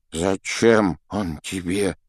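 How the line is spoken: Trembling voice. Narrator (Russian): спросил дрогнувшим голосом

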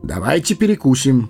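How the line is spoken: Brisk cheerful voice. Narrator (Russian): бодрым голосом предложил странник

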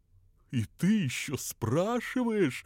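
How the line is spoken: Laughing reply. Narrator (Russian): рассмеялся в ответ Понти

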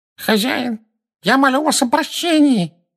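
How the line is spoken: Nasal pleading from kneeling man. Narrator (Russian): прогнусавил человек, стоящий на коленях

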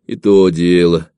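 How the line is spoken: Weary agreement. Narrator (Russian): устало опускаясь на траву, согласился Ефимка

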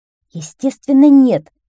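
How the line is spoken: Curt, angry. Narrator (Russian): сердито отрубил красавчик

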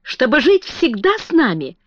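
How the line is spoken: Joyful exclamation. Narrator (Russian): радостно воскликнул

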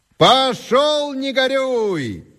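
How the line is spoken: Shouted. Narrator (Russian): крикнул Антоний

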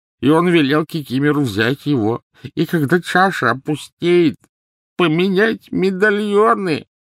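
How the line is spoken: Grating sobs. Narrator (Russian): Рыдания Кикимера обратились в подобие скрежета

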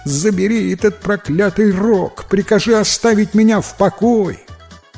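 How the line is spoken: Pleading, howling in pain. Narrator (Russian): Взмолился жадный приказчик, воя от боли

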